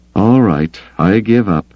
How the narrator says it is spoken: he sighed

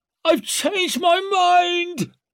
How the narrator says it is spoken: she screeched, slobbering, desperate

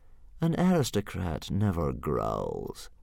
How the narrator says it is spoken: purred Fireworm sweetly

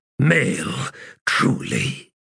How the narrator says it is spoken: Emotion growled out in his words

